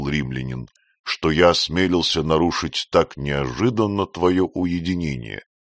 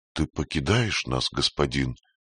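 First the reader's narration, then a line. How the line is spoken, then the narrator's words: Whisper. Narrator (Russian): прошептала она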